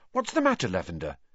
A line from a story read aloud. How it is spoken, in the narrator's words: said Hermione anxiously